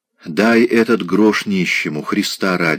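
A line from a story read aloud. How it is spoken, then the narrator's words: Passionate whisper. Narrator (Russian): шептал он страстно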